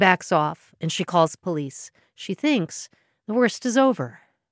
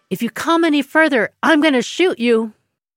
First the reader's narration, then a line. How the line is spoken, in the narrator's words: She shouts